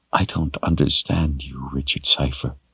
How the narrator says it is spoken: said softly at last, the anger gone from her voice

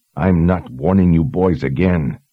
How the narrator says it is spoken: she said, this time in a growl

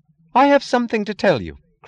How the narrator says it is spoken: cried with the sound of that impotent rage which wishes that words were brass knuckles

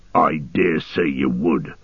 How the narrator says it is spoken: snarled Ugluk

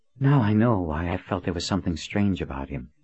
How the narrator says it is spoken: she said as she sighed her relief

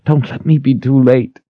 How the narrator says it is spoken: she begged

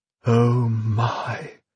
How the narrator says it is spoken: breathed Lilliman

